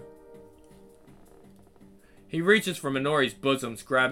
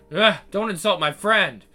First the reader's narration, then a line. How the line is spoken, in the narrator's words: He scoffs